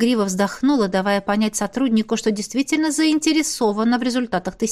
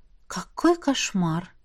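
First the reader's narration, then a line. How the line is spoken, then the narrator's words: Muttering. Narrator (Russian): пробормотала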